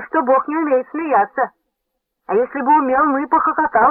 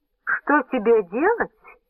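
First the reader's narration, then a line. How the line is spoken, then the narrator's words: Soft, tender, insinuating interruption. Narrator (Russian): прервала его Антоньона на этот раз мягко, ласково и вкрадчиво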